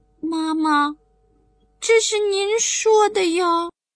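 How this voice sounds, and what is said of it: Quiet, soft child's voice. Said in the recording (Chinese): “小声”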